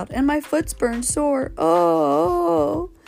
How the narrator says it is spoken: sobbed the fairy child

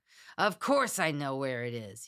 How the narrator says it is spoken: he bellowed

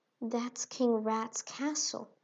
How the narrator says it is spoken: whispered Sugar

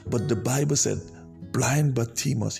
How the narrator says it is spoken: he cried out

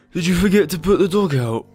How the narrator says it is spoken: asked Harold sleepily

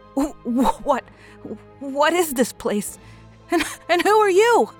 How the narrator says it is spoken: Howard stammered

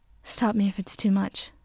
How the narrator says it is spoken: Katsuki panted

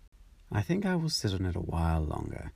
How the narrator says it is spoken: said the duck

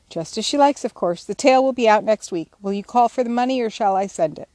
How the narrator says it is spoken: asked Mr

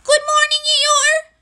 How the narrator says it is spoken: shouted Piglet

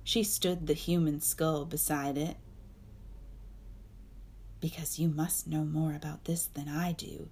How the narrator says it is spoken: she muttered at it

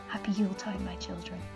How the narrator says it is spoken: she whispered

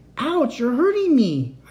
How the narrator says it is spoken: wailed

